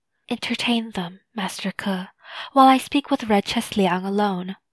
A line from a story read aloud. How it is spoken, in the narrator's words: I whispered